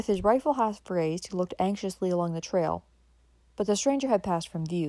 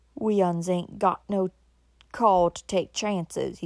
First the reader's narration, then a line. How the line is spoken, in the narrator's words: growled